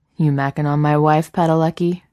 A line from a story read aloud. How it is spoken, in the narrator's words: Jensen reprimands with a mock growl